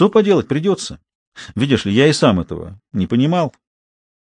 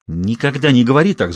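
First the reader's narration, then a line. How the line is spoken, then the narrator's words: Hissed. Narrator (Russian): зашипела Робин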